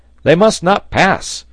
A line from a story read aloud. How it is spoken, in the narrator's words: shouted Pencroft